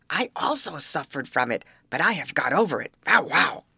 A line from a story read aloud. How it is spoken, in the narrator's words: barked